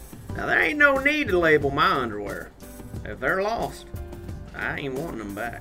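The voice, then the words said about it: Old prospector character voice. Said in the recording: “I feel like we just found, like, the old prospector here.”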